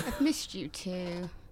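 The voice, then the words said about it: Insincere, sarcastic tone. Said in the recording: “I can hear the lying in your voice there.”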